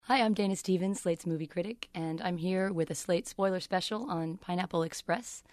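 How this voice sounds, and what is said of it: Slightly hoarse, husky voice. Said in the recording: “I'm losing my voice a little bit and hoping that it sounds beguiling and husky”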